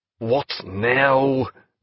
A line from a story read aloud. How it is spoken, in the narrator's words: called Killick angrily from the sleeping cabin